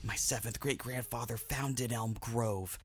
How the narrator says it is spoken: Clay whispered in delicious terror

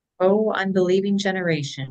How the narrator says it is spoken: Jesus replied

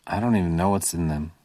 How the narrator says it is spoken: he muttered

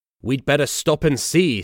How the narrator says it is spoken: said his driver

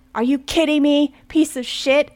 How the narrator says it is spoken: Anna cried out in frustration

